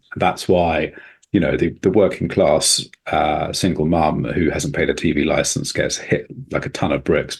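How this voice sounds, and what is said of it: English accent. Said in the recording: “as a kind of white Englishman with my accent”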